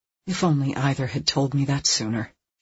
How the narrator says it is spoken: she murmured

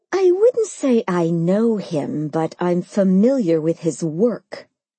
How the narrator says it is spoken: I replied through clenched teeth

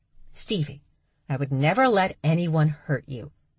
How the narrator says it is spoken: Charlie calmly reminded her sister

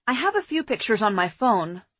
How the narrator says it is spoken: I said

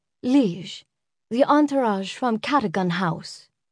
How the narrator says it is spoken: Nadia said, softly, respectfully

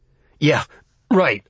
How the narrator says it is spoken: I gasped

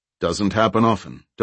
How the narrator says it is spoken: DeHart said

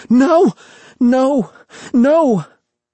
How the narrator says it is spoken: in the loudest voice he could manage without choking

